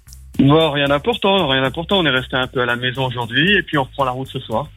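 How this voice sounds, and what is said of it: Slight Alsatian French accent. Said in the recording (French): “on croit entendre un petit accent. ... Du côté ... de l'Alsace.”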